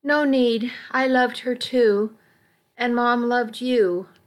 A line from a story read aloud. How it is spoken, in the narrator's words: sighed